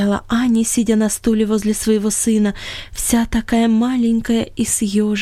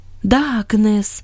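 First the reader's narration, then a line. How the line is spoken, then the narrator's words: Sad agreement. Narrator (Russian): печально согласилась Анни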